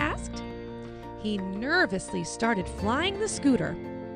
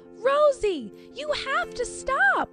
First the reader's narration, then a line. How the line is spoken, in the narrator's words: Anna cried